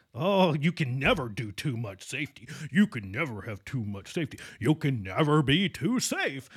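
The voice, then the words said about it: Imitates an old-school safety professional. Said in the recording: “my old school safety pro impersonation”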